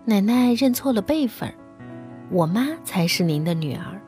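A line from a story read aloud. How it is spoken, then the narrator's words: Sweet, clever tone. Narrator (Chinese): 小红先是笑，然后乖巧伶俐地说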